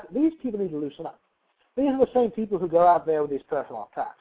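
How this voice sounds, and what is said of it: Put-on character accent. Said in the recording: “my accent, I am simply attempting to play a character here.”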